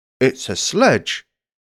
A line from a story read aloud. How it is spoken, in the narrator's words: said Uncle Trumbull